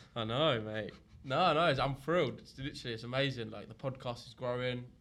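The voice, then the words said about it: Unwell, sick-sounding voice. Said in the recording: “as you can tell from my voice, I'm not too well.”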